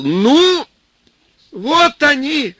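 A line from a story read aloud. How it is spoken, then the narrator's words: Boy yelling. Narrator (Russian): заорал парнишка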